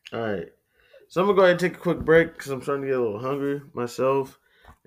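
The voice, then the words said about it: Flat monotone speaking voice. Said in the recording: “monotone voice, no laughter, no jokes, no creativity, nothing”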